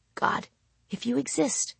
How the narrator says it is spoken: I would whisper, so softly I could barely even hear my own voice

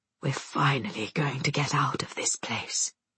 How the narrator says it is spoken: Father bends his mouth to Mother's ear and whispers

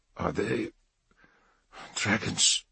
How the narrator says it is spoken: murmured Ranulf

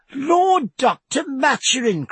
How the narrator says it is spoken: cried Cecilia

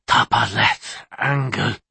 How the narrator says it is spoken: he rasped

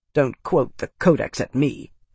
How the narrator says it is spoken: Fidelius snapped, annoyed

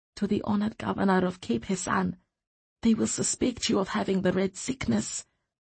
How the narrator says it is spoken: she murmured in Mentish

